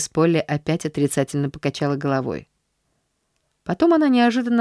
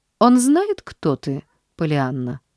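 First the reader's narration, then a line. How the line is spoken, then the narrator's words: Girl's sigh. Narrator (Russian): Девочка вздохнула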